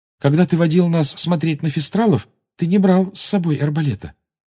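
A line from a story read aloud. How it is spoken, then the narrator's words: Timid. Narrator (Russian): робко сказала Гермиона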